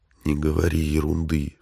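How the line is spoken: Whispered objection. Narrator (Russian): шепотом возразил ей Марти

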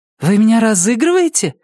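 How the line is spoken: Exclaimed. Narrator (Russian): воскликнула Микаэла

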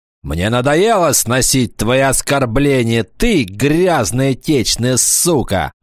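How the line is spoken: Shouted. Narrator (Russian): закричал он

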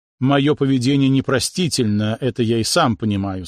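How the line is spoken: Plain. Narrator (Russian): сказал Шуров

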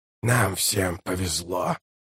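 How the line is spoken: Muttered. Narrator (Russian): пробормотал Калор

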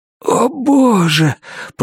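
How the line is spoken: Moaned. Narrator (Russian): простонал я

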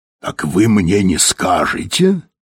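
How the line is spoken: Breathed out. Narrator (Russian): выдохнул Тиббинг

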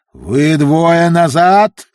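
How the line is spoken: Roared. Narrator (Russian): взревел сэр Локомар

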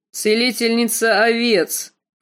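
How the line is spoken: Snorted. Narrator (Russian): фыркнул Квота

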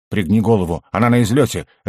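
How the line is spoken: Sharp. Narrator (Russian): резко сказал я ему

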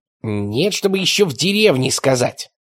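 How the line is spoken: Grumbling. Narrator (Russian): ворчал Ничевок

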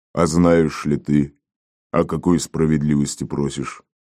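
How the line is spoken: Guttural question, leader. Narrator (Russian): гортанным голосом спросил предводитель отряда

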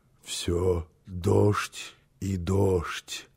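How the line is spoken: Drowsy muttering. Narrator (Russian): пробормотал он еще в полузабытии

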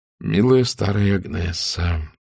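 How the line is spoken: Muttering. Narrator (Russian): пробормотал он

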